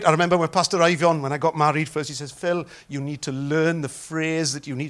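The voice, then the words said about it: Welsh accent. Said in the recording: “my Welsh accent”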